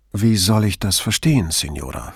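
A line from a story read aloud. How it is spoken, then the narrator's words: Calm question. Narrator (German): fragte Brunetti ruhig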